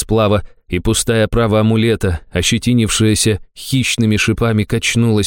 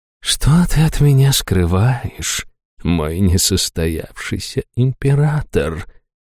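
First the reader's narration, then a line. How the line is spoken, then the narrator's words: Purring. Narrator (Russian): промурлыкала Хайту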